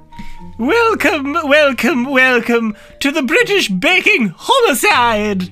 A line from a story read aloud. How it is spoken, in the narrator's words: bellowed in delight